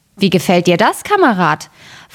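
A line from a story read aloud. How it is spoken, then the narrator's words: Plain. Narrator (German): fragte der Schneider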